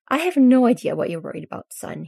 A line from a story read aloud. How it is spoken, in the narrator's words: he sighs